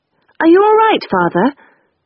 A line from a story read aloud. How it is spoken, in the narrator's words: I called brightly